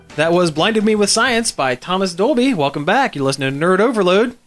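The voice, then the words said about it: Exaggerated radio announcer voice. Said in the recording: “That's the most radio announcer voice I think I've ever done on this show.”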